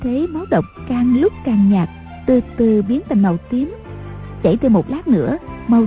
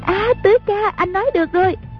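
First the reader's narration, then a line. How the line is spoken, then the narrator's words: Crying out. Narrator (Vietnamese): A Bích la lên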